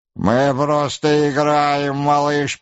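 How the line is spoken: Mocking group laughter. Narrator (Russian): передразнивая его, захохотали ребята

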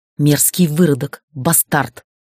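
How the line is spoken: Hissing. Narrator (Russian): шипела наставница

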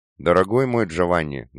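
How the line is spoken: Sad rueful chuckle. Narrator (Russian): грустно усмехнулся папа

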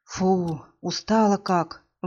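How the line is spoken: Tired exhale. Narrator (Russian): выдохнула Ира

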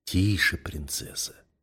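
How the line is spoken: Breathless whisper in ear. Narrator (Russian): задыхающийся шепот на ухо

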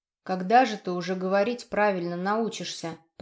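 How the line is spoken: Grumbling. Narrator (Russian): проворчал Женя

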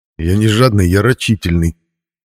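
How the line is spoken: Snort, then serious. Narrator (Russian): Тоже фыркнул я и добавил уже серьезно

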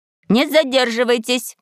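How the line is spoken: Nanny's shout. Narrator (Russian): крикнула няня

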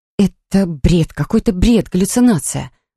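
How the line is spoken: Mutter. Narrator (Russian): Бормотала я

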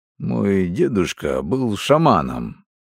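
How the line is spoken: Grumbled. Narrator (Russian): буркнул Миха

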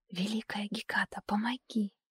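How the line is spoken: Barely audible whisper. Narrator (Russian): Шепчу еле слышно

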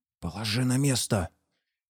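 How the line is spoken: Hissing whispered command. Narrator (Russian): свистящим шепотом приказал Майба

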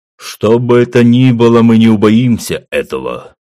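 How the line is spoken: Proud bark. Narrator (Russian): гордо рявкнул Гуга

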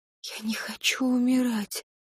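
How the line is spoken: Whispering. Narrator (Russian): прошептала она

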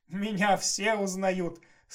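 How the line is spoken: Old man's cackle. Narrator (Russian): старчески захохотал Тильс

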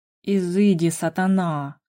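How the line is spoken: Hoarse sleepy drawl. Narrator (Russian): Хриплым спросонья голосом протянула Рада

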